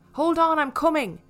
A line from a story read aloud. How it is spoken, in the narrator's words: he shouted to her, trying to make his voice sound reassuring